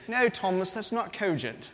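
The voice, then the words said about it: Put-on British accent. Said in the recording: “you gotta say that with a British accent”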